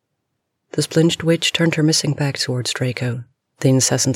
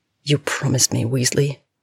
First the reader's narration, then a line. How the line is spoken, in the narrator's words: Draco muttered